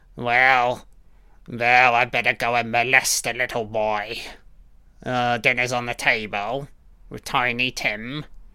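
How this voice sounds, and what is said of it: Put-on accent. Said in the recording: “What is going on with these accents?”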